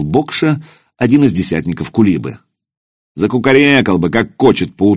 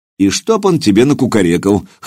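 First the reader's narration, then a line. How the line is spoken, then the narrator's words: Scoffed. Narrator (Russian): хмыкнул Илья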